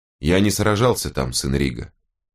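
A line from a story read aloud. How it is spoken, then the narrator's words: Plain. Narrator (Russian): сказал волкодав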